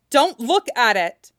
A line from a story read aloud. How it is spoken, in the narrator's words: Zelda shouts